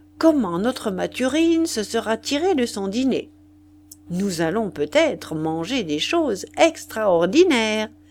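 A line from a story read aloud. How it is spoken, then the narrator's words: Cheerfully said. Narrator (French): dit gaiement Madame le chanteur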